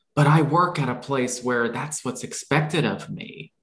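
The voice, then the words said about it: Put-on inner critic character voice. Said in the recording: “I kind of bring in my inner critic voice, okay? So watch out for it. But my inner critic voice”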